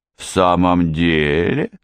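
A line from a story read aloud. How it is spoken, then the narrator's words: Doubtful drawl. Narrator (Russian): с сомнением протянула Вики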